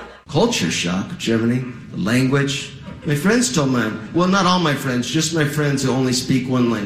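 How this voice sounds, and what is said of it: Usual voice. Nothing is said of it.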